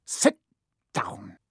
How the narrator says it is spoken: he snapped at Hermione

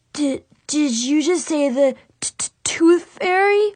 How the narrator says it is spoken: He stammered

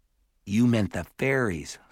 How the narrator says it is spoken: said Simon

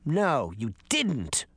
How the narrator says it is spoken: the little girl said angrily

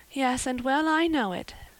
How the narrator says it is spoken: admitted Anne mournfully

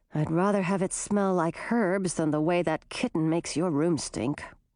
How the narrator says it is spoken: Grissina muttered

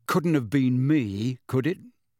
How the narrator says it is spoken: said Harry sarcastically

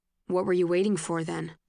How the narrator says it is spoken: He says, but not harshly

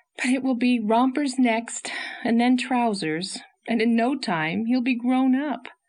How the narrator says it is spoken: sighed

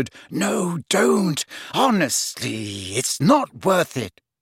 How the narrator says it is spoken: Hermione, who was standing slightly behind them, whispered

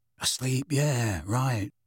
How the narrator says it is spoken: said Fred in an undertone

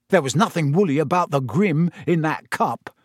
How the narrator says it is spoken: said Ron hotly

